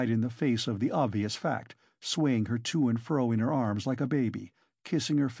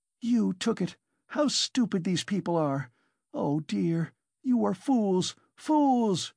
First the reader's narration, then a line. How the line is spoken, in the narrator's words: she cried, addressing the whole room